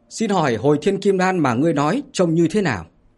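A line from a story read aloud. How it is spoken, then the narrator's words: Loud female voice. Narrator (Vietnamese): một nữ đạo sĩ ngồi ở phía đông lớn tiếng mà nói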